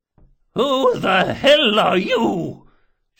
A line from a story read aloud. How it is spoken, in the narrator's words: she bellowed, and for a moment that age-weakened voice rose to something like its old power